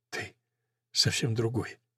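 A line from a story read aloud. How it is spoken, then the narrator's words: Whisper. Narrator (Russian): ее шепот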